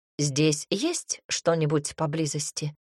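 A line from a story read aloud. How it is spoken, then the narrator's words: Plain. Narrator (Russian): спросил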